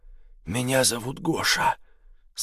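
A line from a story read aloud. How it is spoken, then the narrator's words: Said hoarsely, male. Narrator (Russian): сказал он мне хриплым голосом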